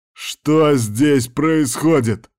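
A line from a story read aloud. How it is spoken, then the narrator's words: Roaring. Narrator (Russian): взревел он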